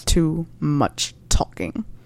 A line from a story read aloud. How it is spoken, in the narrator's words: growled Severus